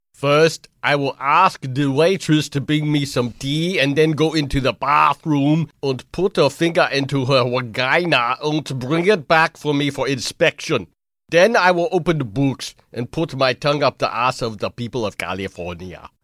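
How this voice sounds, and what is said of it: German or Austrian-sounding accent impression. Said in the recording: “is that a German or Austrian accent?”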